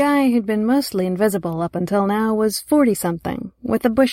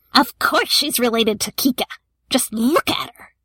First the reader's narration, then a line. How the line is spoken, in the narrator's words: screeching